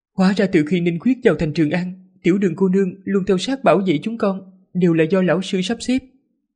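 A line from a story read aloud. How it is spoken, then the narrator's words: Smiling. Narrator (Vietnamese): Hoàng hậu mỉm cười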